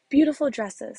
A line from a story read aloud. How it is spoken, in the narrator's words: said the one